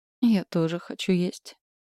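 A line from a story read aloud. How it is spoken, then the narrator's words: Sighing. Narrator (Russian): Рика вздохнула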